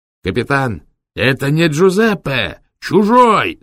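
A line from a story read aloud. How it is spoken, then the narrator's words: Shouts from behind. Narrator (Russian): закричали сзади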